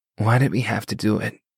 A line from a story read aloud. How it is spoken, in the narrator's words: Hashim whispered